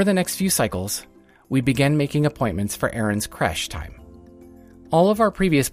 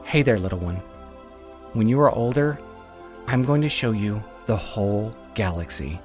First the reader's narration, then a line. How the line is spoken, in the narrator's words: whispered